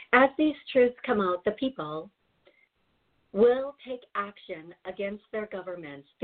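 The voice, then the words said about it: Switches into a different accent. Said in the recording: “Here comes the accent.”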